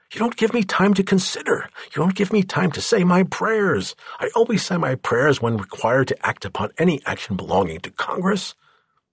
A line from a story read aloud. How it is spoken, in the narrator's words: the president exclaimed